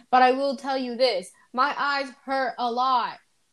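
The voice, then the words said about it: Raised, louder voice. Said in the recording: “Oh, I'm raising my voice.”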